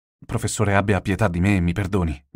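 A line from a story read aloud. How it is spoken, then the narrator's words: Plain. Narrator (Italian): disse Rocco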